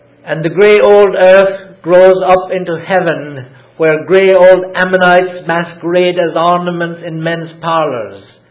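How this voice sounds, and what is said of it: Irish accent. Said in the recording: “my accent is Irish”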